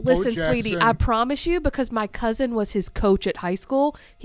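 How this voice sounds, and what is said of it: Alabama Southern accent. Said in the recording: “she heard your accent”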